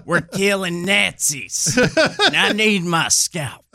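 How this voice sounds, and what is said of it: Folksy Southern Aldo Raine impression. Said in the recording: “Lieutenant Aldo Raine from Inglourious Basterds ... Brad Pitt's character ... quaint folksy accent”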